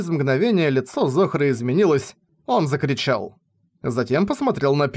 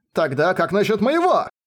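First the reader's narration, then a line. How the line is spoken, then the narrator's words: Childish-sounding. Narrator (Russian): Это прозвучало так по-детски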